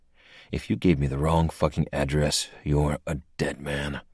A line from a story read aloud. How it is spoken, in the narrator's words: I muttered